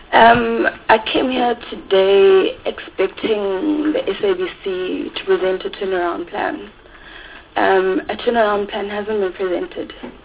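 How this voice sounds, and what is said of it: Voice affected by a cold. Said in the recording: “apologize for my voice. I've got a bit of a cold.”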